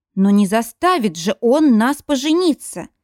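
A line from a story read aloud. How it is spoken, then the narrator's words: Desperate exclamation. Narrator (Russian): в отчаянии воскликнула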